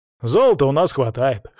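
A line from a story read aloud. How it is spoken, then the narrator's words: Snorting. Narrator (Russian): хмыкнул Алексей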